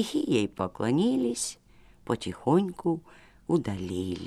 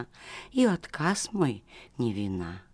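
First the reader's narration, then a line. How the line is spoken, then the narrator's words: Quiet. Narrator (Russian): тихо молвила она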